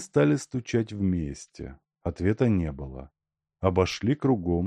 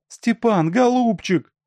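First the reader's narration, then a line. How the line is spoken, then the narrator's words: Shouting. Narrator (Russian): закричала Аленка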